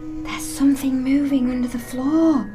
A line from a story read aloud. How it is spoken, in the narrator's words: whispered Percy